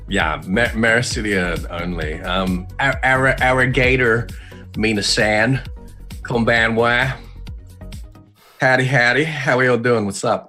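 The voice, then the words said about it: Japanese with a Southern American accent. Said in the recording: “You were doing Japanese with like an American accent ... It sounds like you're trying to do Southern ... Southern Japanese ... It was bad. Yeah. That was real bad.”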